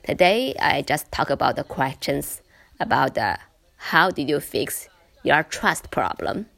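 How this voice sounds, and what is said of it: Voice altered by a bad cold. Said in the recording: “I recently catch a bad cold, and yeah, it's very, very bad cold. You can just hear, listen to my voice is a little different.”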